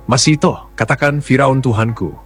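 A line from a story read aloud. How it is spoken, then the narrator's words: Loud commanding voice. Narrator (Indonesian): Dengan suara lantang, Raja Firaun berkata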